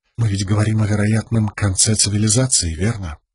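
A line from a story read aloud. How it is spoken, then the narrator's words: Quiet question. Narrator (Russian): тихо спросила Шалан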